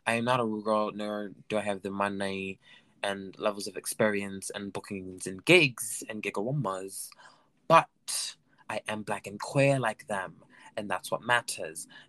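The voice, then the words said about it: Speaks in a put-on accent. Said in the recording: “I don't know why this accent is happening, but I'm kind of stuck in it now.”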